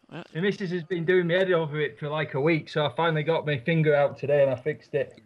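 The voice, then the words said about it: Yorkshire English accent. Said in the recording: “He's still got his Yorkshire accent.”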